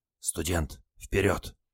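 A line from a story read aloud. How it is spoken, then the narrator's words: Whisper. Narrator (Russian): шепнул моряк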